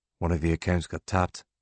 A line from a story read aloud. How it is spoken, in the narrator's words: Gary McCrum says in a low voice